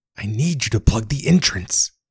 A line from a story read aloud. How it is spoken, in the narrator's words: the penguin hissed, sotto voce